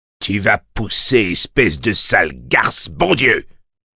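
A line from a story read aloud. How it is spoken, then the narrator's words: Roaring. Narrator (French): rugit Scotter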